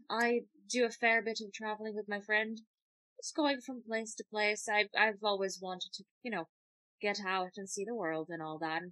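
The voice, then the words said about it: Scottish accent. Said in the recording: “figured the accent would give it away immediately. No, I'm from Scotland.”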